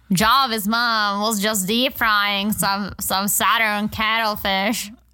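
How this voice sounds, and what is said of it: Poor put-on Southern accent. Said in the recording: “I love your southern accent. ... you're doing it so poorly that it's almost offensive. ... Terrible.”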